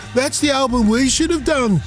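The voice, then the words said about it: Put-on Birmingham English accent. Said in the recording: “Is that Liverpool accent? What am I doing the accent? ... That's Brummy.”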